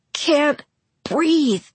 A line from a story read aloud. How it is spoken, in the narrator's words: I gasped